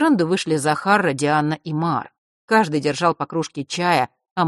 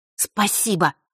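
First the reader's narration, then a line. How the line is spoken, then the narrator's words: Angry grumble. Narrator (Russian): буркнула та, еще разозленная перепалкой с Фэшем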